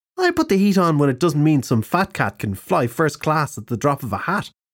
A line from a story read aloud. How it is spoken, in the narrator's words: Chilly said